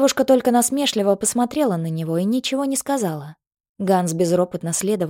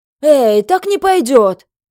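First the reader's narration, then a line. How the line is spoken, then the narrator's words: Indignant devil shouting. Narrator (Russian): возмущенно закричал черт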